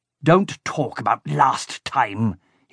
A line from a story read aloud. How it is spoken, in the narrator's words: he spat